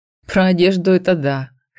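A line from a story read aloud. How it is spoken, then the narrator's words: Snorting. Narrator (Russian): хмыкнул Леандра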